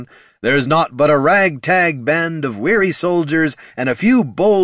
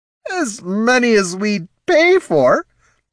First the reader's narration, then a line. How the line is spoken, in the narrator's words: Ortson slurred the retort